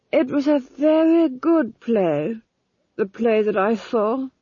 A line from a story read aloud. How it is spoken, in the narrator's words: said Felmet dreamily